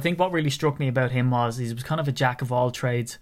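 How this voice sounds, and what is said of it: Irish accent. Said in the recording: “it's just my Irish accent.”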